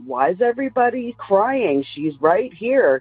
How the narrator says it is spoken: my mother yells out

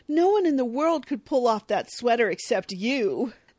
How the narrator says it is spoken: Edgar is charmed and exclaims

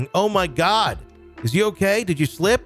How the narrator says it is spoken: My new coworker shouting

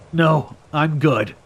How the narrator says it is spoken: grunted

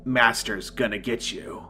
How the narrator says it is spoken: in a deep, twisted, demonic tone

